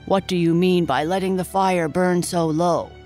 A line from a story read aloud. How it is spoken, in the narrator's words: he growled